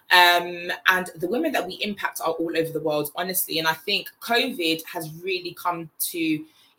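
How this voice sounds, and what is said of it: English London accent. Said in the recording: “if you haven't already told by the accent, I am English. I'm from London in the UK.”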